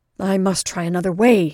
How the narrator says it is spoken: thought desperately

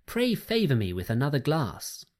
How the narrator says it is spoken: cried

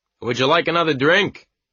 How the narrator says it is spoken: I shouted after her

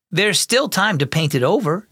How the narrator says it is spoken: Samuel said

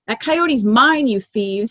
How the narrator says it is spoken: snarls

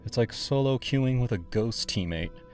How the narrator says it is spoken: she'd sigh over drinks

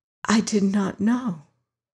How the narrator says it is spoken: whispered Molly

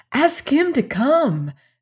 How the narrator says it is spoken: she exclaimed eagerly

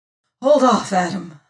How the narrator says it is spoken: I panted

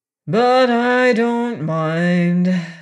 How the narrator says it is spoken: said Ruggedo with a deep sigh

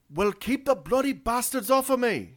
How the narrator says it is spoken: She yelled back

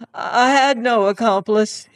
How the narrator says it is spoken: he cried

